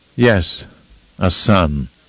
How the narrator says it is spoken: Mohiam responded in a flat, somehow bitter tone

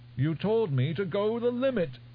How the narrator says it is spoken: Almost wailing

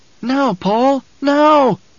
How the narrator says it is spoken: Jessica screamed it in her mind

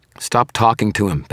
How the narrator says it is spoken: Beckett said

